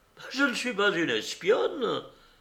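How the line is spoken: Exclaimed. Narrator (French): s'écria-t-elle

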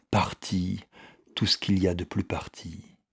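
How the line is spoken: Murmured. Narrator (French): murmura-t-il

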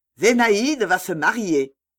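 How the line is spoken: Shouted. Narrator (French): Il ne le disait pas, il le criait

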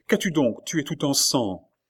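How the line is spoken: Alarmed exclamation. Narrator (French): s'écria-t-elle

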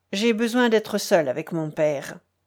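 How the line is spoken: Firm voice. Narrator (French): dit-il d'une voix ferme

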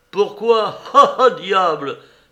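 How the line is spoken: Sudden loud shout. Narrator (French): s'écria tout à coup Dmitri à pleine voix

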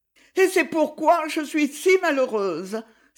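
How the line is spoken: Exclaimed. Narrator (French): s'écria-t-elle

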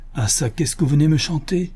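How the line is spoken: Old man exclaiming. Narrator (French): s'écria le bonhomme

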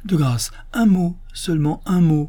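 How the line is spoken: Urgent pleading exclamation. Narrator (French): s'écria l'abbé, qui semblait vivement désirer que le docteur ne partît pas si tôt

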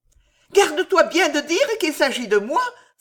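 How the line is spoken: Urgent exclamation. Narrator (French): s'écria Alice

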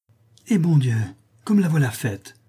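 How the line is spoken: Exclaimed. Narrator (French): s'écria son amie

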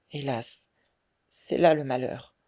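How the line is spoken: Sad murmur. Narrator (French): murmura tristement Marguerite

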